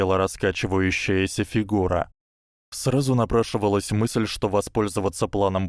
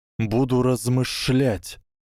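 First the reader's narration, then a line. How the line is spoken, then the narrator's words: Hiss. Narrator (Russian): прошипел Гарри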